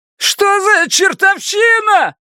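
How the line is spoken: Unnaturally shrill shout. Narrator (Russian): прокричал продавец неестественно пронзительным голосом

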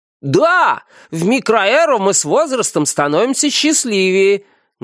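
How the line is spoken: Loud crowd in unison. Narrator (Russian): громко подхватила ее слова толпа

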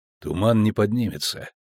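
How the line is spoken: Quiet. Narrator (Russian): тихо сказал Геральт

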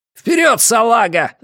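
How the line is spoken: Shouted. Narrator (Russian): закричал он

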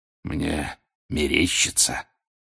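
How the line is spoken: Wheezing again. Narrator (Russian): вновь захрипел Грюм

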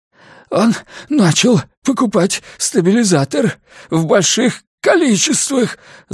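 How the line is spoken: Breathless croak. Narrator (Russian): задыхаясь, прохрипел Фим

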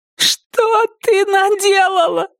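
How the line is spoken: Sobbing. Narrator (Russian): Тиффани зарыдала

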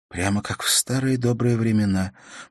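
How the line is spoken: Soft smiling whisper. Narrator (Russian): прошептала Ивенлин с мягкой улыбкой

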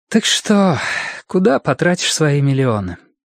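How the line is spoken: Sudden sigh, then speech. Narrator (Russian): Мадлен внезапно вздохнула и произнесла

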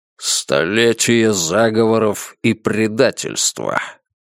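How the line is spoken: Muttering under breath. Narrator (Russian): пробормотал Клык себе под нос

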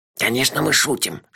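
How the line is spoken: Whisper. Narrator (Russian): шепнул ей Мелифара

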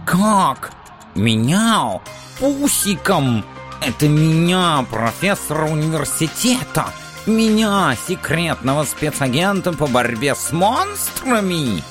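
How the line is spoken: Menacing hiss. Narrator (Russian): Зашипел он, стараясь выглядеть предельно грозно

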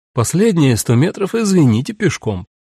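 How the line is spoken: Brisk, cheerful. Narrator (Russian): Бодро сказала

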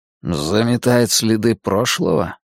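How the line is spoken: Muttered. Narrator (Russian): пробормотал Дерек

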